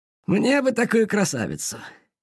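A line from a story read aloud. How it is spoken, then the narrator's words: Driver sighing. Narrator (Russian): вздохнул шофер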